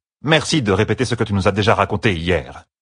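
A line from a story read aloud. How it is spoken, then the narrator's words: Curt. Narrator (French): dit-elle sèchement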